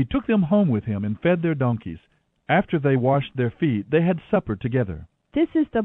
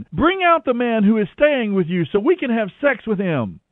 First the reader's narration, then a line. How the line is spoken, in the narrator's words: shouting to the old man